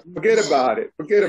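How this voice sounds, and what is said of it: Put-on Italian accent. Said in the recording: “Talk with an Italian accent.”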